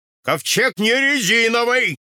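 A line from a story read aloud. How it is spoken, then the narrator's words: Shouting. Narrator (Russian): кричал Ной Архипыч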